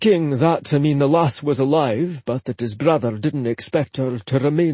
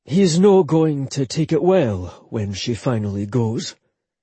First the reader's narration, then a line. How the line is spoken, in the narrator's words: Rory said solemnly